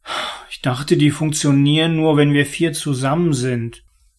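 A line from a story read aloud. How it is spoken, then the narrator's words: Mumbled. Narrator (German): nuschelte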